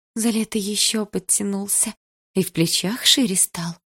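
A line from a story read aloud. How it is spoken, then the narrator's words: Breathy exhale. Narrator (Russian): выдохнула Милана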